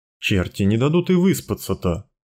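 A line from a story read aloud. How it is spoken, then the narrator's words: Grumbling. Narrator (Russian): ворчал Прошка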